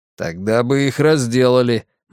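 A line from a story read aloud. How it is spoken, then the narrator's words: Grim remark. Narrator (Russian): мрачно заметил разведчик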